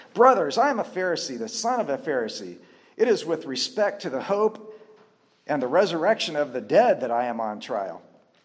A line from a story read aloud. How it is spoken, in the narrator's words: he cried out in the council